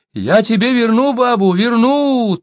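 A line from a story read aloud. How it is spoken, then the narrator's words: Thin, high exclamation. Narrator (Russian): тонко воскликнул Сибун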